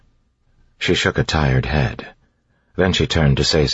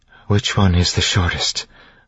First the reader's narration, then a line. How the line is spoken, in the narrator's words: Vin asked